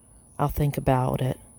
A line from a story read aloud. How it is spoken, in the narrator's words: Ida whispered